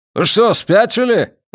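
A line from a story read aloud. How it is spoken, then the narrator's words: Major barking. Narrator (Russian): рявкнул майор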